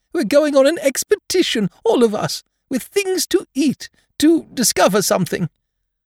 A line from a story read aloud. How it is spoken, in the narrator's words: said Pooh excitedly